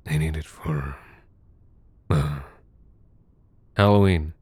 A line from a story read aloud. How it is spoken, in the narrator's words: said, my voice rasping